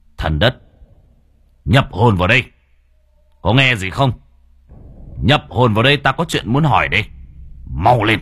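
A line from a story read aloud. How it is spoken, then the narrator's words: Stern voice. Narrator (Vietnamese): Cậu nghiêm giọng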